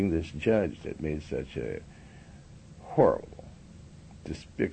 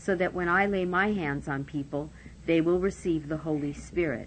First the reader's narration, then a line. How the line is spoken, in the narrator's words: he exclaimed